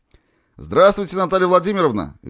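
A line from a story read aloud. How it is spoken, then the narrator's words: Cheerful exclamation. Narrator (Russian): весело воскликнул он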